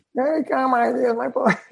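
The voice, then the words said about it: Imitates another person's voice. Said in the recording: “Was that an Ace impression? Oh, yeah.”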